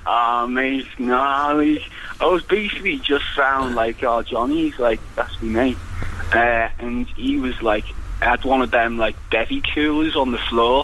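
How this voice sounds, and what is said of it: Liverpool accent. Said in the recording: “it sounds like you're from Liverpool”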